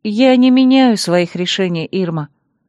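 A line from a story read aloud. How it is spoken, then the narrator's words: Calm reply. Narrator (Russian): спокойно ответила я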